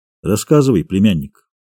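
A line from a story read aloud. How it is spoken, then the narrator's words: Quiet but commanding. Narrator (Russian): негромко, но повелительно проговорил Монтесума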